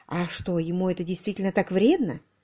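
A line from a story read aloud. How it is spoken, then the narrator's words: Nervous mumbling. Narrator (Russian): Нервно пробормотала Агата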